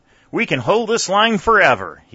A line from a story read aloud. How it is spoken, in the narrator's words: he exclaimed to his aides